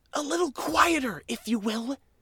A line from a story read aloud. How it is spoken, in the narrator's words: he hissed